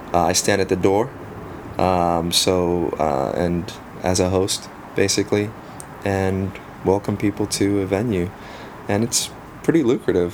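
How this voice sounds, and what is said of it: South African accent. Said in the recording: “your accent? ... They they sometimes mistake it for a Boston accent, ... Australian, ... British ... fellow South Africans”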